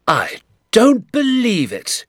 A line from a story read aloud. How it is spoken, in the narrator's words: he cried